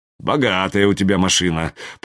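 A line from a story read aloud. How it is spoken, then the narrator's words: Grumbled. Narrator (Russian): проворчал я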